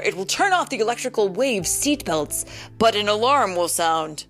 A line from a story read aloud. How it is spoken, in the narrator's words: Cap shouted